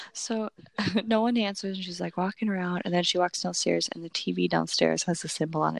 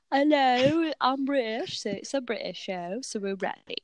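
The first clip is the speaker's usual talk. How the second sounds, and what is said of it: Put-on British accent. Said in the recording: “here's my British accent ... We're doing British.”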